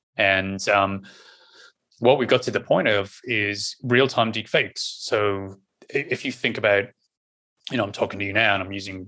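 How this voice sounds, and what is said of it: Irish accent. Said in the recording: “my normal Irish accent”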